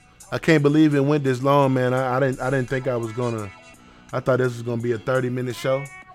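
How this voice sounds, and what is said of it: Sick, worn-out voice. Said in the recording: “As you can hear, my voice is, I'm kind of out of it. After coming back from Atlanta, I got a little sick, so my voice is a little out of it.”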